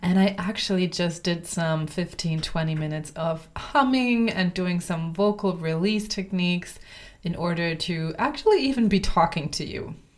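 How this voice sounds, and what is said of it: Voice affected by a cold. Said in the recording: “You might be able to hear it in my voice. I've got a little cold”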